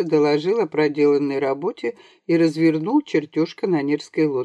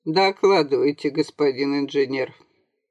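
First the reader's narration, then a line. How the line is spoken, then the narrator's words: Icy tone. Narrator (Russian): Маркиз ледяным тоном произнес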